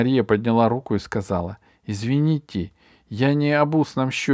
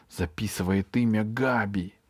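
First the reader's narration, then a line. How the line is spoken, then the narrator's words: Whisper. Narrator (Russian): прошептал Эберхард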